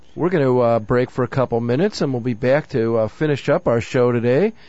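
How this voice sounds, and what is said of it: Cracking voice, sounds sick. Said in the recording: “my voice is cracking a little bit. I'm playing hurt today again ... just trying to get over the Midwestern cold.”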